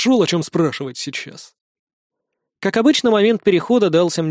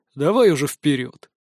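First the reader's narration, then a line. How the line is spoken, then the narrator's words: Grumbling. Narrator (Russian): проворчал в ответ Тигр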